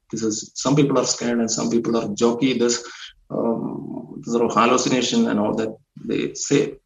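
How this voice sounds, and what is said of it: Indian English accent. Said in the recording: “being an Indian ... my accent is ... they can follow my accent”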